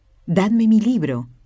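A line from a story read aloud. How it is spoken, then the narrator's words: Sudden dying exclamation. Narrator (Spanish): San Felipe Benicio se hallaba agonizante, cuando exclamó de repente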